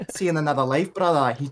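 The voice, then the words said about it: Attempted Scottish accent. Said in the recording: “I can't really do a Scottish accent, but it's something like ... He says it like that, right?”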